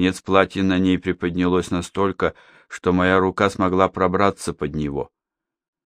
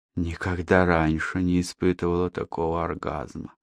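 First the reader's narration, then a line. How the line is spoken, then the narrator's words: Whisper. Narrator (Russian): продолжала шептать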